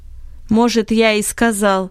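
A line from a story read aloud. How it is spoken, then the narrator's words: Angry reply. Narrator (Russian): ответ Бенета звучал сердито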